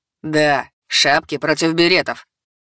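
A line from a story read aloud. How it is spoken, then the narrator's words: Laughing at own joke. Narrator (Russian): сказал он и захохотал от своей шутки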